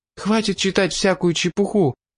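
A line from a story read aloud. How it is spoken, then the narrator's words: Agitated exclamation. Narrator (Russian): взволнованно воскликнула Кроул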